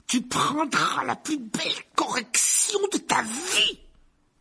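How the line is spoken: Roared. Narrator (French): rugit l'oncle Vernon

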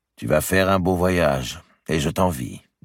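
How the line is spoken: Plain. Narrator (French): dit-il

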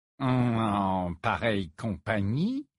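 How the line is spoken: Mocking tone. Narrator (French): répéta Rogue d'un ton railleur

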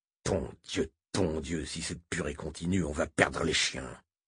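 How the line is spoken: Grumbling. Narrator (French): grogna Moram

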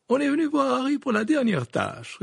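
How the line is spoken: Cheerful reply. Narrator (French): répondit Madame Wesley d'un ton joyeux

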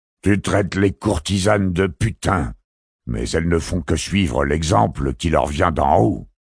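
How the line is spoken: Hissed with hatred. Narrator (French): siffla l'empereur d'un effrayant masque de haine

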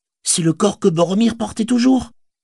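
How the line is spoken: Exclaiming. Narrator (French): s'écria Pipin

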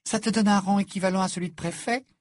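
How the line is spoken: Joyful exclamation. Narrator (French): s'écria Hermione d'un ton joyeux

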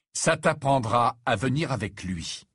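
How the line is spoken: Grave tone. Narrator (French): dit-il d'un ton grave

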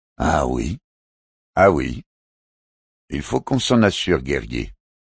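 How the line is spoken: Curt, sharp retort. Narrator (French): rétorqua un trapite d'un ton cassant

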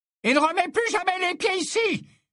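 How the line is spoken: Shouting. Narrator (French): hurla Madame Rosmerta

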